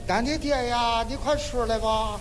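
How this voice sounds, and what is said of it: Slight regional dialect accent. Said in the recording (Chinese): “说话略带一点方言。... 有点口音，... 有点口音。”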